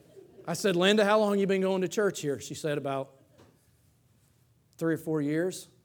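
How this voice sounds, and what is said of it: Texan accent. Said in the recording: “people thought our accent was amazing over there ... your accent is gorgeous. I said, I know, it's Texan.”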